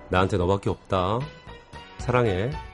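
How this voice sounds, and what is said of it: Warm, loving whisper. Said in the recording (Korean): “사랑을 속삭이는 목소리 뜨끈뜨끈합니다”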